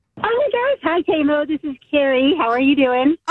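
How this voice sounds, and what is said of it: Happy, cheerful voice. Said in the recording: “You sound so happy.”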